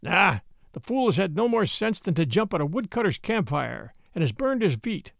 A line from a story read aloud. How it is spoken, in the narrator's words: said Father Wolf with a grunt